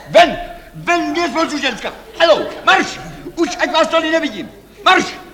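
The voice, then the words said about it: Shouting angrily. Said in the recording (Czech): “Nekřičte.”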